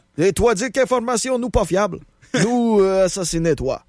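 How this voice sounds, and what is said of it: Fake Russian accent, slight Québécois tinge. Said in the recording (French): “un petit accent québécois au travers de mon accent russe”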